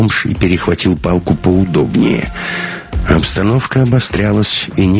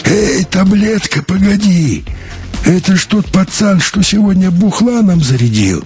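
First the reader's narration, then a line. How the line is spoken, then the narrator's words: Familiar hoarse voice. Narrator (Russian): раздался сбоку знакомый сиплый голос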